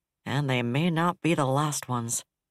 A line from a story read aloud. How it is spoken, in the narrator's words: Cadell Markham said flatly from McAvoy's display